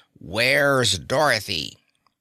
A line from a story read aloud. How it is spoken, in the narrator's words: He barked loudly and then growled